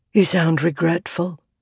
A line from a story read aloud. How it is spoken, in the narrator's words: Navani whispered